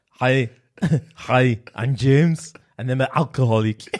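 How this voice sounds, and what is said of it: Austrian-accented imitation of another person. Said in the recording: “I'll do Arnie. That's German, right? Or Austrian? ... Austrian.”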